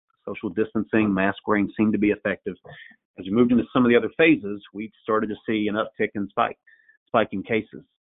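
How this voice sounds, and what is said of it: Tennessee accent, slightly nasal. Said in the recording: “I'm sitting in Nashville, Tennessee, if you couldn't tell from the accent. ... I've got a little cold. Hopefully I'm not too nasally for you today.”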